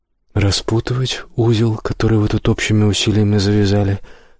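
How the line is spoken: Calm reply. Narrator (Russian): спокойно отвечает Парцел

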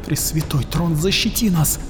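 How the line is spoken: Terrified pleading prayer. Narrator (Russian): взмолилась Арикин, мельком увидев за когтями клубок щупалец

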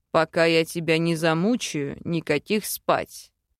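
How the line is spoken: Growled. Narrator (Russian): рыкнул новоявленный муж

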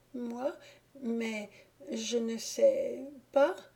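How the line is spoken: Timid stammering. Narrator (French): balbutia la timidité qui bégayait

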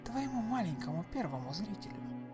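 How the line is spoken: Barely audible. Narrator (Russian): едва слышно произнесла Марго

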